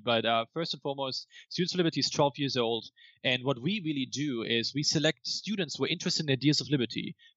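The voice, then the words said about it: German accent. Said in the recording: “Why does this guy have a weird German accent?”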